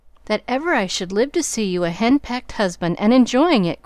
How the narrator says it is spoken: cried Joe

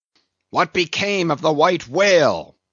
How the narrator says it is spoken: Now cried Ahab, who thus far had been impatiently listening

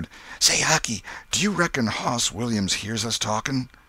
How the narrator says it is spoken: Tom whispered

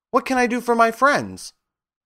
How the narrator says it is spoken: the Queen herself, who asked in a squeaky little voice

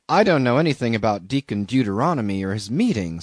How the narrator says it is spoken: said I

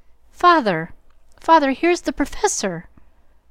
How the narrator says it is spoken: Joe cried out with a scandalized face

